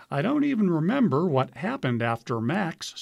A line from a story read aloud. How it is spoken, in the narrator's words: says Freeman